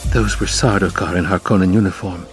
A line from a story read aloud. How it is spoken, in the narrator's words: Jessica whispered